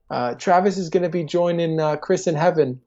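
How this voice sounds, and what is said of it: Poor attempt at New Zealand accent. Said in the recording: “I can't do a New Zealand accent if my life depended on it”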